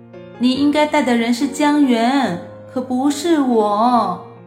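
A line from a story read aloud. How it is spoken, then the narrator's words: Inner wailing thought. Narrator (Chinese): 莫西西在心中哭嚎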